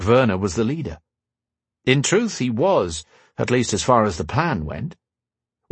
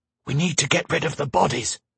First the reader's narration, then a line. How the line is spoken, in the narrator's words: he whispered